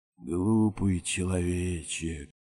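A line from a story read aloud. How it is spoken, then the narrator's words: Rustling whisper. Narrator (Russian): отозвался Нижний мир не то шепотом, не то шорохом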